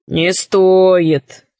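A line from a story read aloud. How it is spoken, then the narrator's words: Bored wolf. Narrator (Russian): сказал волк скучным голосом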